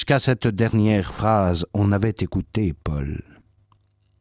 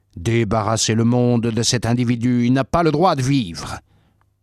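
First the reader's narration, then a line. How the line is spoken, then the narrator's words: Crowd shouting. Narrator (French): Ils criaient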